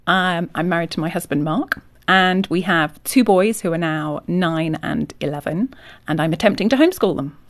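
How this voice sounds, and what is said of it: English Yorkshire accent. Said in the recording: “I noticed that accent. So you're from England. ... I'm from England, from Yorkshire.”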